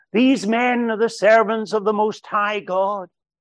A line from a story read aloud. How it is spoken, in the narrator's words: shouting after them